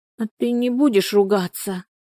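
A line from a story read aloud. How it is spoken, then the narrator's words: Dejected question. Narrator (Russian): поникшим голосом спросила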